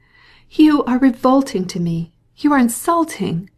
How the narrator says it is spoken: she cried, with increasing anger

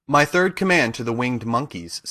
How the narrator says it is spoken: said Glinda

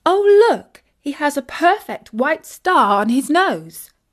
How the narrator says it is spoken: exclaimed Isis

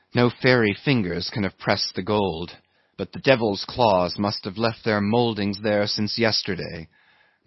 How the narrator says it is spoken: murmured Starbuck to himself

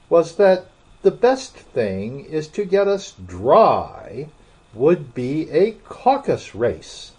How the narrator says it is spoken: said the Dodo in an offended tone

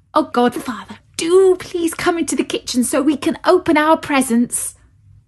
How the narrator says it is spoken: begged Clara

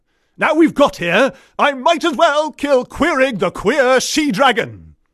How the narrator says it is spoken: roared Whiston the warrior

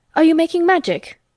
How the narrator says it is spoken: he asked sharply

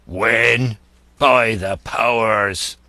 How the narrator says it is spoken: cried Silver

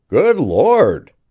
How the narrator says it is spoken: cried the man

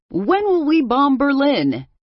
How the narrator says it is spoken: he shouted back

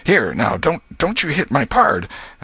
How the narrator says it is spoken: Potter exclaimed

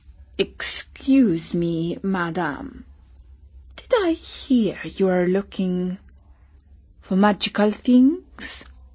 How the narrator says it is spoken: another man said very quietly

